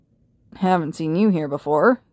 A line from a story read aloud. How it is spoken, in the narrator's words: growled